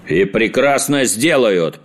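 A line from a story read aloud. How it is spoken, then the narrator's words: Booming. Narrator (Russian): прогремел принц Лимон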